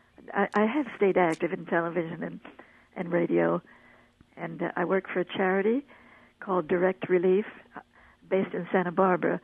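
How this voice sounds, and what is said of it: Slightly foggy, husky voice. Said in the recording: “My voice is a little foggy this morning”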